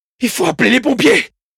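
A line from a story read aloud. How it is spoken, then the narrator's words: Shouted. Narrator (French): criai-je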